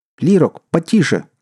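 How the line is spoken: Shout. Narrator (Russian): крикнул ему Лон

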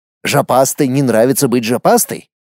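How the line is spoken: Insolent snort. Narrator (Russian): нагло хмыкнул парень

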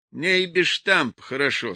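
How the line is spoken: Plain. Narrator (Russian): сказал он

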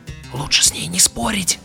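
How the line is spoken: Whispered. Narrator (Russian): прошептал Арнольд

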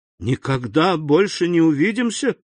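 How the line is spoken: Exclaiming. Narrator (Russian): воскликнул Эммануэль

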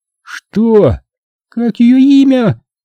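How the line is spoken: Shrill girl squeal. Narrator (Russian): взвизгнула девушка

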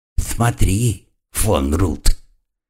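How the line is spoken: Demanding hiss. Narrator (Russian): требовательно прошипел безгубый рот

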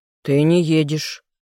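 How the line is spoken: Harsh bark. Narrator (Russian): резче, чем следовало бы, рявкнул я

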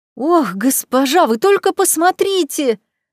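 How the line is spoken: Exclaimed. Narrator (Russian): воскликнул он

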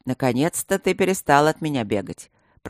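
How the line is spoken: Grumbled. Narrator (Russian): пробурчал широкий и снова обросший бородой Блакори

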